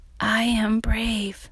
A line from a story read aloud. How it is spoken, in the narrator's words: with a faint whisper